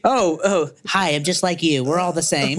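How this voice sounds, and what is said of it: Imitates another person's voice. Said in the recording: “who I'm doing an impression of. He wears glasses and country music.”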